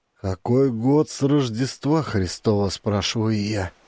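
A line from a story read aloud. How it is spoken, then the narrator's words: Hoarse pleading. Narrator (Russian): Прохрипел он с мольбой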